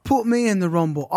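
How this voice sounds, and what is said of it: Put-on accent imitating a woman. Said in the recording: “I don't know why I give her that accent.”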